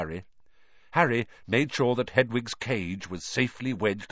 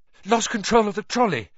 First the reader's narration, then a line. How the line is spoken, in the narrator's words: Harry gasped, clutching his ribs